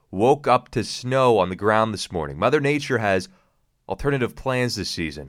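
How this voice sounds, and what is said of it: Slightly off, sick-sounding voice. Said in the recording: “my voice is a little bit funny ... I think sickness is going around”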